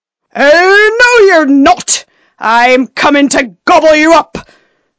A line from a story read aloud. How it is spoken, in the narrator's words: roared the troll